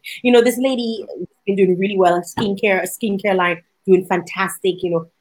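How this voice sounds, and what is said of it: Caribbean Dominican accent. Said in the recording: “I can hear an accent ... she heard my accent and she's like, where are you from? ... Dominica ... you're from the islands”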